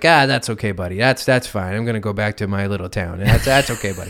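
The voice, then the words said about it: Imitates another person's voice. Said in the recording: “That's a good impression.”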